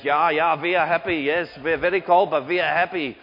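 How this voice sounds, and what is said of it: Put-on Scandinavian accent, sounds Dutch/German. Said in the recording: “my best Scandinavian accent. ... it sounded suspiciously like Dutch or German”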